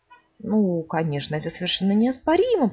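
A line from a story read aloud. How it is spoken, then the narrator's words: Mumbling. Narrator (Russian): пробормотала сова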